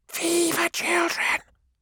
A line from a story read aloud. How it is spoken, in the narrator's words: hissed the navigators